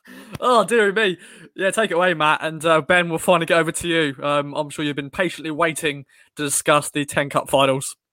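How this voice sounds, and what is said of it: Hoarse, failing voice. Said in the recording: “My voice is gone. ... have a good old cough”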